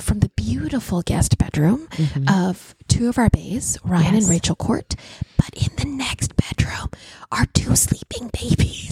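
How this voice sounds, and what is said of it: Whispering quietly. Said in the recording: “we're whispering ... We have to be very quiet.”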